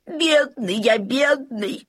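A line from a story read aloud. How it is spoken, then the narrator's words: Moaning. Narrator (Russian): стонал Лабан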